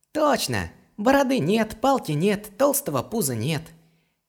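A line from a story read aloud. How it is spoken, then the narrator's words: Nervous giggle. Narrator (Russian): хихикнул, опасливо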